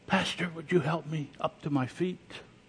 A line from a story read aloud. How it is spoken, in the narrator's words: she said softly to him